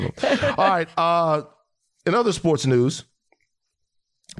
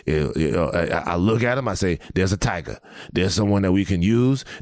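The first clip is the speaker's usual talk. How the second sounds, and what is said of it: Imitates another person's voice. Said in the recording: “I hate your Coach O impression. ... That's my Coach O impression.”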